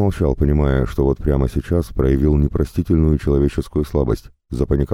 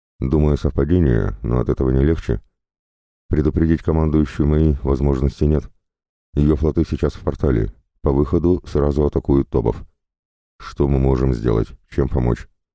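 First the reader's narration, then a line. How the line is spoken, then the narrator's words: Calm. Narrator (Russian): Шоу ответил спокойно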